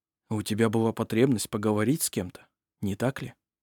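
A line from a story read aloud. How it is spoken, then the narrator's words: Quiet question. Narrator (Russian): тихо спросил Арф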